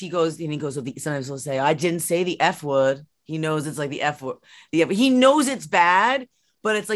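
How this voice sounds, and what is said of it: Usual voice. Nothing is said of it.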